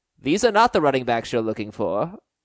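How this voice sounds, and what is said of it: Imitates a Star Wars character's voice. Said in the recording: “my impression of”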